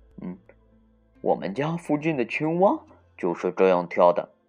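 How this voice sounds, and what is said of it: Quiet muttering voice. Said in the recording (Chinese): “兔子中最年长的一位小声嘀咕”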